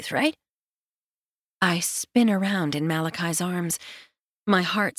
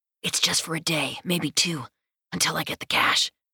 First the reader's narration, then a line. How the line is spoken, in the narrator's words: he whispers